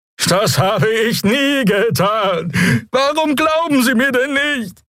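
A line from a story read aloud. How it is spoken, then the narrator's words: Whining with mournful honking. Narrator (German): Der Draxel brachte einen winselnden Laut hervor, begleitet von einem klagenden Tuten seines Horns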